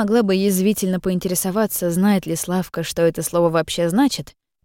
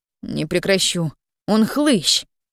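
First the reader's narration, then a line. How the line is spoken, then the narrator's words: Sighing. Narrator (Russian): вздохнула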